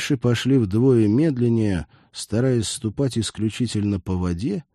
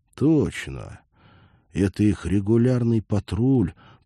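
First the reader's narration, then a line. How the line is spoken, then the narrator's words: Trembling fearful triumphant whisper. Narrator (Russian): прошептал Олег, дрожа одновременно от страха и триумфа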